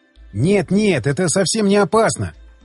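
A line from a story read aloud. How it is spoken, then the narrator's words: Exclaimed. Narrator (Russian): воскликнул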